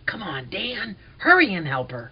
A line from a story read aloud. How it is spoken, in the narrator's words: In a whisper, I said